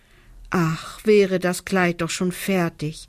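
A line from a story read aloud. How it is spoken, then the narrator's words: Longing sigh. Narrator (German): seufzt Lisa sehnsüchtig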